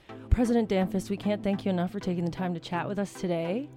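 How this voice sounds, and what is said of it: Smooth public-radio announcer voice. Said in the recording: “You have a great NPR voice,”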